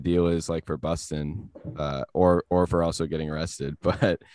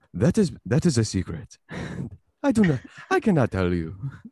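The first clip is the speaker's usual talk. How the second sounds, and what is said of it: Imitates another person's voice. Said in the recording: “Your impression got way better.”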